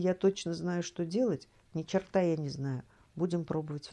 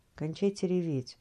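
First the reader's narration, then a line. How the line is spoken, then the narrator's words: Dry. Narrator (Russian): сухо предложила я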